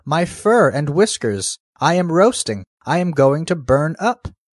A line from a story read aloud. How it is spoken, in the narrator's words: cried